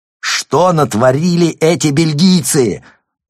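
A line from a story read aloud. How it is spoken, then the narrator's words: Yelling over static and thunder. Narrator (Russian): заорал Рван, перекрывая помехи и грозовые раскаты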